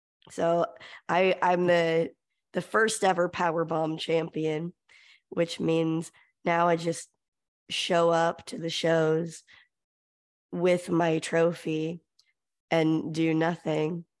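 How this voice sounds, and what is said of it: Hoarse voice. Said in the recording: “I'm a little hoarse, because I've been shouting at that.”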